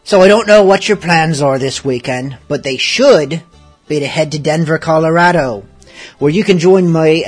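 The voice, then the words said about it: Put-on pirate accent, scratchy. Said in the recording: “I'm endeavouring to do this show beginning to end in pirate talk, but with less throat scratch than last week”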